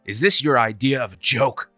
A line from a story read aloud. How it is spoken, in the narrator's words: He snapped